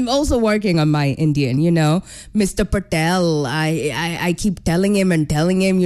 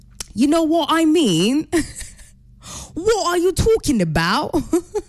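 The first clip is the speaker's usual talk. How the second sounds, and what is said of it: Put-on British accent. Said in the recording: “I can do a British accent ... my British accent”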